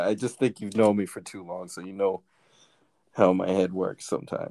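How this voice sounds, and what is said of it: Usual voice. Nothing is said of it.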